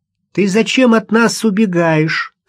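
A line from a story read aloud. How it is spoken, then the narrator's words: Shouting. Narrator (Russian): вслед за Машей закричал Ростовцев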